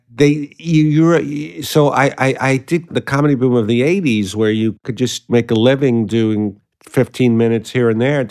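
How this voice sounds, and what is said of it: Brooklyn accent. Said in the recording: “I hear my accent, saw, Brooklyn”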